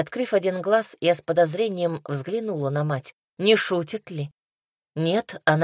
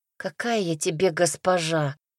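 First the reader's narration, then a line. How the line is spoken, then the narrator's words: Mumbling. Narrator (Russian): пробормотала я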